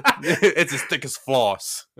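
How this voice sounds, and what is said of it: Poor attempt at Chicago accent. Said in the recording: “the Chicago accent, I can't do it ... I love the accent you were just trying ... I cannot do a Chicago accent. That was horrible.”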